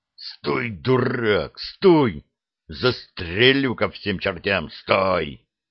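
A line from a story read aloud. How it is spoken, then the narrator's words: Furious hiss. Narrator (Russian): Снайпер зашипел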